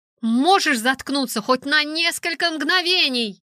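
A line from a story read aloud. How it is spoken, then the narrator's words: Very loud scream. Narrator (Russian): Я вопила так громко, что, наверное, даже пилот услышал меня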